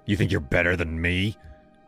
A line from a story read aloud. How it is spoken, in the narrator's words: he snarled, his voice low and jagged